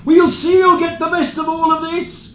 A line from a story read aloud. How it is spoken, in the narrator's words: the bride's father shouted